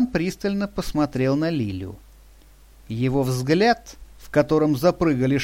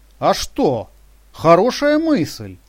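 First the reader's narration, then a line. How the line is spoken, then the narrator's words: Exclaimed. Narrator (Russian): воскликнула Шершова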